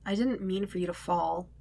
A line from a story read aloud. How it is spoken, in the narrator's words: he mutters, the closest he might come to an apology